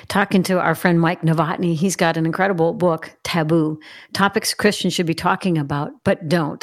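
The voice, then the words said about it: Congested, sick-sounding voice. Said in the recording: “Pardon my voice, got a little bit of a cold today.”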